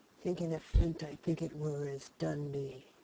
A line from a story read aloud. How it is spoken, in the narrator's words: growled